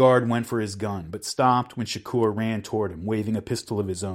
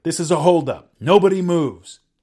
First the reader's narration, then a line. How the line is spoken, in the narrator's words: Odinga shouted